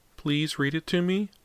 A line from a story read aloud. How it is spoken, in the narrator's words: he asked in a tiny, pleading voice